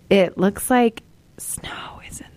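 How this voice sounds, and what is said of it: Whispering. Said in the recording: “I don't know why I'm whispering”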